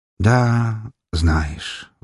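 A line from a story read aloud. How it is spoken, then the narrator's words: Sighing. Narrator (Russian): вздохнул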